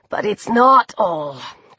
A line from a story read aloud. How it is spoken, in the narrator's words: Chris said in his husky, rough voice